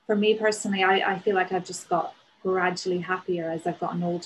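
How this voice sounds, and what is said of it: Northern Irish accent. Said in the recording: “my accent as a Northern Irish person ... the Northern Irish accent”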